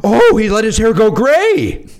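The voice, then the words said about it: Loud old lady voice. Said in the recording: “at full volume went ... That was an impression of an old lady.”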